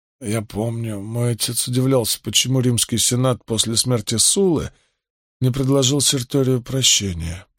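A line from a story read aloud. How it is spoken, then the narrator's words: Muttered. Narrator (Russian): пробормотал Карбон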